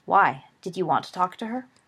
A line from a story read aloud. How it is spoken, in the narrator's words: There was a long pause from his tightly curled roommate